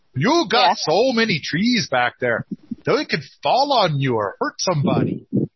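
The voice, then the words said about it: Poor attempt at Minnesota accent. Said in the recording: “I'm trying to do my Minnesota accent ... I can't do it any kind of accent. Somebody's probably going to tell me that was a mix of 8 different things, all of which were wrong”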